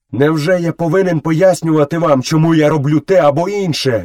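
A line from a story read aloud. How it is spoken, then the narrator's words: Furious shouting. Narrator (Ukrainian): люто закричав Мауглі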